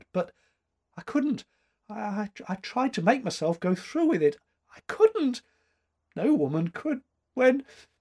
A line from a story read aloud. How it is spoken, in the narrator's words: quavered